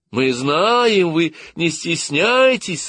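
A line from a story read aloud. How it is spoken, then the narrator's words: Joyful group shout. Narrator (Russian): радостно закричал весь игровой состав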